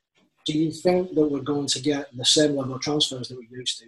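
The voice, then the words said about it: Bolton English accent. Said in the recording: “that is a Bolton accent”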